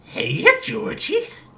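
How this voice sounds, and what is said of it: Tim Curry's Pennywise impression. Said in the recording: “a Tim Curry Pennywise”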